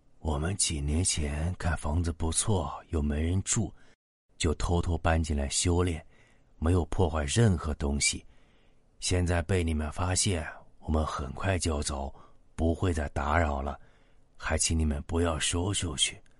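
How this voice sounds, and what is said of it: Very soft, quiet old man's voice. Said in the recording (Chinese): “那个老头用很轻的声音说”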